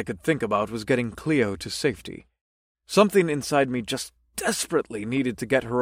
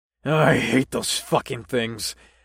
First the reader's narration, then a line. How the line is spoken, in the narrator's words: grunted